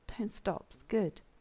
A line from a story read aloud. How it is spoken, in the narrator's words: John murmured, his words slurring